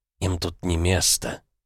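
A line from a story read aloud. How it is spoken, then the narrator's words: Earth-like whisper. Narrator (Russian): Земля будто шептала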